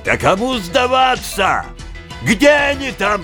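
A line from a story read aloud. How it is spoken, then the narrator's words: Shouted again. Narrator (Russian): прокричал опять он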